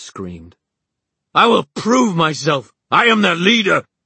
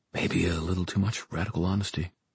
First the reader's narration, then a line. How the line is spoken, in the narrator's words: Simon muttered